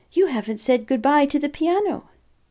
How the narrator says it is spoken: he exclaimed

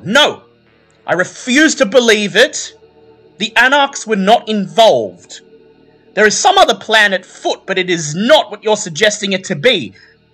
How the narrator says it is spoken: Maria Diamante looking quite frustrated, shouting to the other Toreador

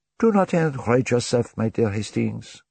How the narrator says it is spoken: Poirot replied soothingly

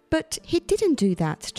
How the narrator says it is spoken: Charlie said

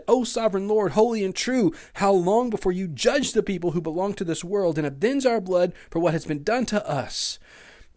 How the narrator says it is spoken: They shouted to the Lord and said

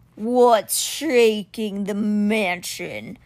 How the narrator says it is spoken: Simber growled

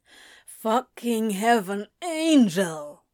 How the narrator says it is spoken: Crowley groans

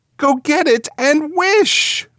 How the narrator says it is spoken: cried his wife, quivering with excitement

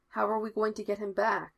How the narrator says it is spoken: Patillo asks, and Foggy can hear his voice shake a little

